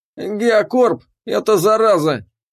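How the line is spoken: Abrupt, hoarse voice turning firm. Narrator (Russian): Без предисловий начал он, и его голос до этого сипл и обрел твердость

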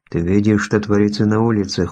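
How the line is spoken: Weary. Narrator (Russian): устало произнес Хейлих

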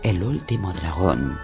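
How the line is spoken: Faint whisper. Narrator (Spanish): le susurró débilmente

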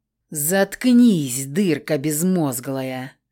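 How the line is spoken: Low growl. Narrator (Russian): Глухо зарычала на нее Хильда

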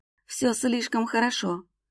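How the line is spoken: Whispered, near tears. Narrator (Russian): прошептала, чуть ли не плача

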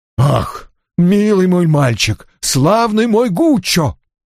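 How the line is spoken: Exclaiming. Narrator (Russian): воскликнул Бувиль

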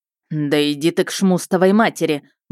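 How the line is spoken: Grumbled. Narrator (Russian): буркнула Щейка

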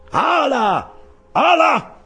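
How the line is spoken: Shouted. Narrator (Italian): gridò ora Stubb, mentre la balena ormai sfinita rilassava la sua furia

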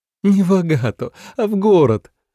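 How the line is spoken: Laughing. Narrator (Russian): рассмеялась Наира

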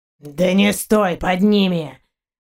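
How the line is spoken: Hoarse shout. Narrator (Russian): хрипло крикнул Заури

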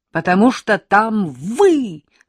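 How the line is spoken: Shouting. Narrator (Russian): закричала я

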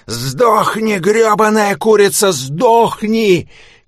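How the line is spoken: Shouting. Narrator (Russian): кричал я

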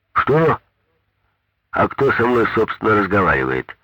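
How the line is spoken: Menacing voice over phone. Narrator (Russian): Грозно вопрошала трубка

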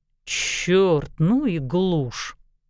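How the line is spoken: Grumbling. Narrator (Russian): пробурчал Хольгерсон

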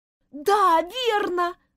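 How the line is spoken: Shouted out. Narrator (Russian): выкрикнула Дженни

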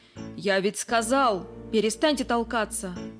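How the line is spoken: Bark. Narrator (Russian): рявкнул

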